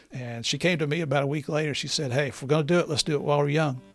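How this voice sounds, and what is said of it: Noticeable non-New York accent. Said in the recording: “You can hear my accent. I'm not from New York City”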